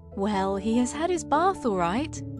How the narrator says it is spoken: said mother with a laugh

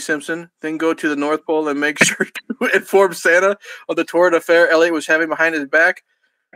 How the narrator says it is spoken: Willie bellowed in laughter and cupcake remnants flew out of his mouth

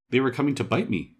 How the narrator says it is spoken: said Robin quickly

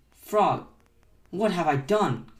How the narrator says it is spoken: cried Toad

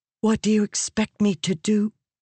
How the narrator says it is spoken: She whispered

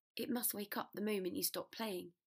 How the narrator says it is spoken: said Harry

